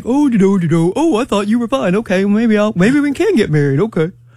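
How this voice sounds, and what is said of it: Imitates a generic man's voice. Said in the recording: “That's my man impersonation. ... That's your man, boy. ... That's a good one.”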